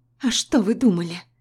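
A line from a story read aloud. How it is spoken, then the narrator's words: Trembling voice. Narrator (Russian): спрашиваю дрожащим голосом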